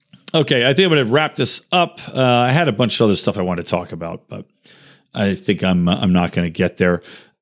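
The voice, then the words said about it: Hoarse, strained voice. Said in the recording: “started losing my voice a little bit too here”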